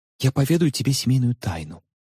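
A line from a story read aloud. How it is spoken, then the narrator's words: Playful intriguing whisper. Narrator (Russian): задорно интригующим тоном прошептала она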